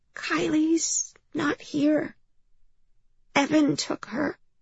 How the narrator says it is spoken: whispered with her puppy breath

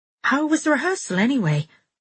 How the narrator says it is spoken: I asked rather desperately

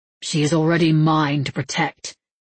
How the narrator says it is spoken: Matthew said coldly

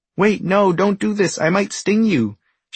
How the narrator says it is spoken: shouts the bee anxiously

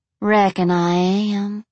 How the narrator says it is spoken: she drawled sweetly

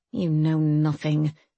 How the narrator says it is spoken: she muttered

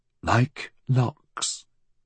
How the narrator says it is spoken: murmured the lady

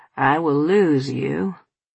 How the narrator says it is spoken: my father said with a melancholy sigh

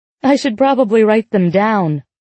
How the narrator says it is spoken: I laugh

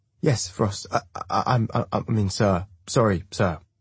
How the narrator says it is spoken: the young voice stutters

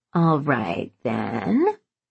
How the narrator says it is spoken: he drawled

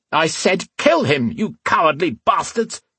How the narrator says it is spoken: the thin man shouted

